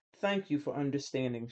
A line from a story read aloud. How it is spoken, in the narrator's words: she said